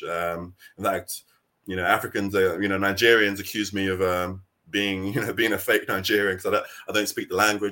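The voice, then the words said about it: British accent. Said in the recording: “my accent, the way I roll, the way I dress, my culture is very British”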